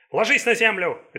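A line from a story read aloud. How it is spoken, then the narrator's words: Barked shout. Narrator (Russian): рявкнул Ли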